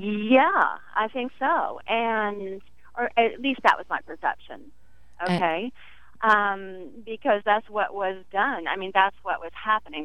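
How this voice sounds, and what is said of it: Faint Southern American accent. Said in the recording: “I have this not-so-Southern accent. Some words are. But I find myself sort of going back sometimes ... to a Southern accent.”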